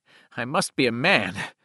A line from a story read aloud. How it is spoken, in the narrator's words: said shakily, and wiped tears from his face